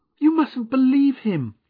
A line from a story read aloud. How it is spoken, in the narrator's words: cried Agnes